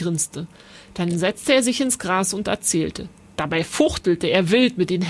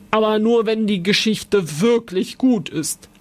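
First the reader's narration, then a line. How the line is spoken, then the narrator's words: Suspicious old man's growl. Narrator (German): Der alte Mann knurrte misstrauisch, dann sagte er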